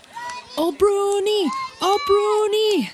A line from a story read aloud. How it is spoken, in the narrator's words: yell enthusiastically